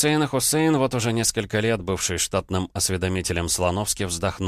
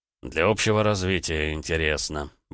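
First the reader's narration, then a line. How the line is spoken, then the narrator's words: Grumbled. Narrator (Russian): буркнул Слановский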